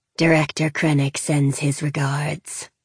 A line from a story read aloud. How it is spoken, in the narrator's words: the droid said, his voice like metal scraping on metal